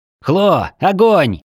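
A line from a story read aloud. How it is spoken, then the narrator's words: Shouted. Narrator (Russian): крикнул я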